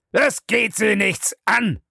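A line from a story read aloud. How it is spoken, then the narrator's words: Thundering shout. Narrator (German): donnerte Bellamy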